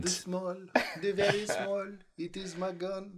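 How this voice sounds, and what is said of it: Put-on French accent. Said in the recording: “I can safely do a French accent”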